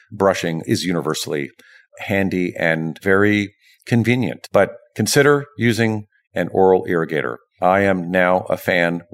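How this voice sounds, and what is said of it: Voice giving out, strained. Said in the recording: “my voice is beginning to go”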